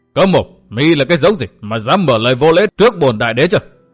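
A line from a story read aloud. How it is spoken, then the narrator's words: Loud interrupting shout. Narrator (Vietnamese): Âm Minh đại đế quát lớn ngắt lời đối phương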